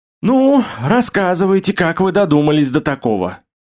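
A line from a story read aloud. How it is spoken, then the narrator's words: Sighing. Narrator (Russian): Вздохнул я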